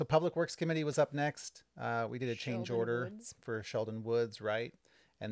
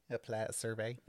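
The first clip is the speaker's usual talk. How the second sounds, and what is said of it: Poor put-on Minnesota accent. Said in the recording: “It was your Minnesota accent... That was not a good Minnesota accent.”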